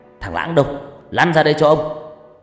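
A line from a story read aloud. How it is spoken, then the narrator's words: Sharp interrupting shout. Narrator (Vietnamese): tiếng quát cắt ngang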